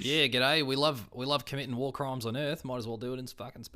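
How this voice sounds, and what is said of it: Put-on Australian accent. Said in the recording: “obviously that's going to be an Australian accent, mate”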